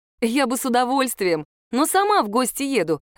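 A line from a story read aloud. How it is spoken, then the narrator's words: Laughing. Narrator (Russian): рассмеялась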